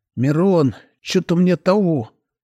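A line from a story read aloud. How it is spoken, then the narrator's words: Hoarse wheeze. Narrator (Russian): хрипло просипел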